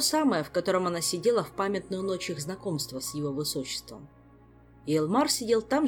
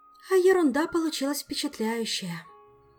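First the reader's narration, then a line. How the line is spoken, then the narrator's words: Sigh. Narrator (Russian): вздохнула Ольга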